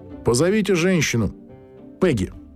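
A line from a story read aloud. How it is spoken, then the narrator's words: Plain. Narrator (Russian): сказал комиссар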